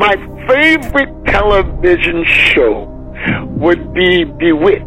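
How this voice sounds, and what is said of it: Usual voice. Nothing is said of it.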